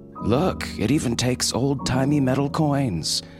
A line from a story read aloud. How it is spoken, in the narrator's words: Kel slurred